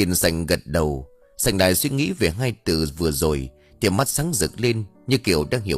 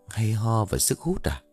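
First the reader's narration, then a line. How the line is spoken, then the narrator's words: Muttering. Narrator (Vietnamese): Sành lẩm bẩm trong miệng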